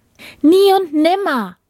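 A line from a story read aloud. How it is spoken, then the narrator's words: Called out. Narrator (German): rief die Prinzessin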